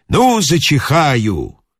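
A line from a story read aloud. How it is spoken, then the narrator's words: Loud muffled whisper. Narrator (Russian): зажав рот, громко шепчет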